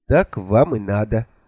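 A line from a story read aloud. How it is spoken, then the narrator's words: Vindictive tone. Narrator (Russian): мстительно сказал я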